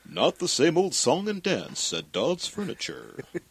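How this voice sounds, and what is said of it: Impression of an old-time radio announcer. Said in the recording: “Andy's unmistakable read ... that's my Andy impression.”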